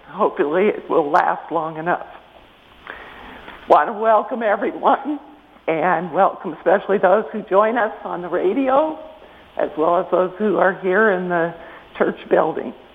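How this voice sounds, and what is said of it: Rough, hoarse-sounding voice. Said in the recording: “My voice is a little rocky today, so I hope you can understand me”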